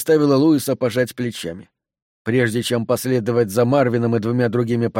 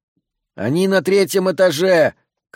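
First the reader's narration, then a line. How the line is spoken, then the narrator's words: Shouting after someone. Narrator (Russian): крикнул Луис им вслед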